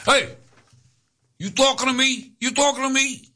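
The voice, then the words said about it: Bad Robert De Niro impression. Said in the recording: “Robert De Niro from Taxi Driver ... bad impression”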